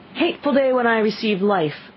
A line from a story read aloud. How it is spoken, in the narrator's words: I exclaimed in agony